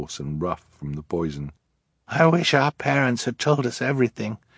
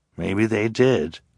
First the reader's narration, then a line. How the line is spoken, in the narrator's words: Klaus said, his voice as rough as his sister's